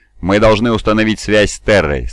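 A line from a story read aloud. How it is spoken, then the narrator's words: Even, firm voice. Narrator (Russian): сказал я ровным и твердым голосом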